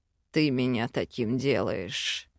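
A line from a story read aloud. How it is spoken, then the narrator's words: Purring. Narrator (Russian): мурлыкнул Вел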